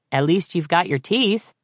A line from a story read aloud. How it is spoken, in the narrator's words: he concluded